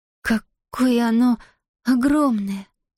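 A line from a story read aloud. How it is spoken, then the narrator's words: Awed breathless exhale. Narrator (Russian): потрясенно выдохнула Зия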